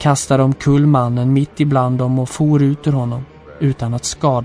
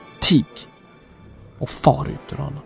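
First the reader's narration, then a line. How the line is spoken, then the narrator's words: Stern. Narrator (Swedish): Då talade Jesus strängt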